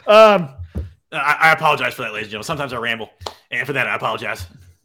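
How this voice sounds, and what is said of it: Imitates another person's voice. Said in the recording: “That was my Johns... That's a very good Johns impression”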